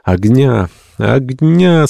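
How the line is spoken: Moaning, chilled sick people. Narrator (Russian): стонали больные, продрогшие до костей

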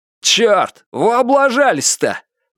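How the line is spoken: Displeased shout. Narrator (Russian): недовольно выкрикнул кто-то

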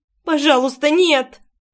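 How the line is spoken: Whimpering. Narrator (Russian): скулила я

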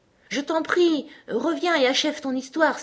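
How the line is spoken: Exclaiming. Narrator (French): s'écria Alice

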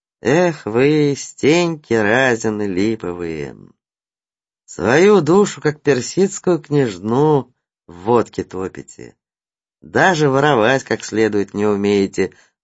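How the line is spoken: Sighed. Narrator (Russian): вздохнул Циолковский

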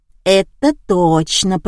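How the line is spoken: Drawn-out young man. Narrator (Russian): протянул парень

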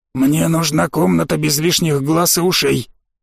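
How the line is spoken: Hoarse whisper. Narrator (Russian): гость хрипло прошептал

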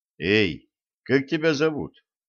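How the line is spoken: Quiet call. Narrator (Russian): тихонько позвал

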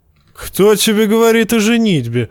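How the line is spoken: Laughing. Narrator (Russian): засмеялся Тормунд

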